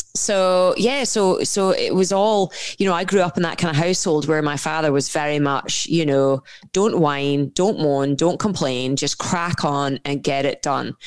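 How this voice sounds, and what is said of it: Scottish accent. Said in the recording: “grew up in a Scottish household, as you can tell from my accent. No, it's not Texas.”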